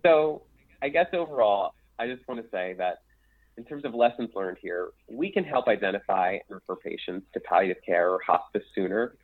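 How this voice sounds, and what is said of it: Philadelphia accent. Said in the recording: “my Philadelphia accent”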